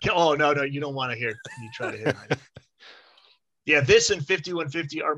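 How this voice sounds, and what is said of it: Usual voice. Nothing is said of it.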